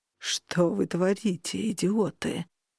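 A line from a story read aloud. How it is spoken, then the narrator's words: Sepulchral voice. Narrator (Russian): могильным голосом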